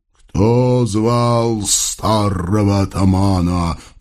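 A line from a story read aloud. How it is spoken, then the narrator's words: Booming ghostly voice. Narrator (Russian): прогудел призрак голосом впечатляющим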